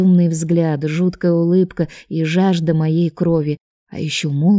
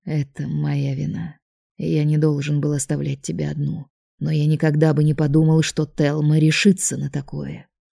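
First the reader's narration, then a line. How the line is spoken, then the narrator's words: Dull gloomy voice. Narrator (Russian): Дракон тут же помрачнел, глухо произнес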